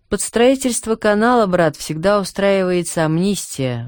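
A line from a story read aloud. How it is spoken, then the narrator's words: Sighing cripple. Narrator (Russian): вздохнул калека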